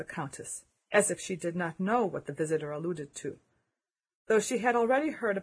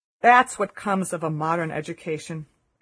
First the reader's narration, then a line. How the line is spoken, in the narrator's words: exclaimed